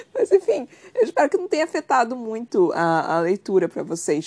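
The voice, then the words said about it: Hoarse, slightly nasal voice. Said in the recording (Portuguese): “Eu acho que eu tô rouca. ... eu não tô conseguindo falar, tipo, com a voz direito. Ela tá meio fanha ... eu tô muito rouca. ... eu tô realmente rouca.”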